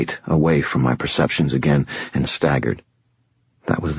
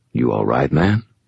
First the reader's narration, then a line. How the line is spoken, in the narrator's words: he rumbled, his voice very quiet